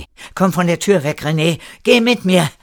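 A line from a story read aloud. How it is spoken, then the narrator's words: Called out. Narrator (German): rief Erik ihm zu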